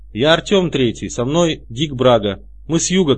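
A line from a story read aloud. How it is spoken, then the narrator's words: Small person shouting. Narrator (Russian): крикнул маленький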